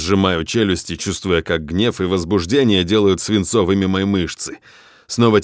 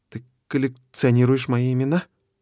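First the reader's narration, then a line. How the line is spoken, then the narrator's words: Trembling child's voice. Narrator (Russian): дрогнувшим голосом спрашивает крошка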